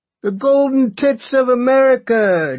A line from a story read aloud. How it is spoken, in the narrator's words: Jason Rapsis cried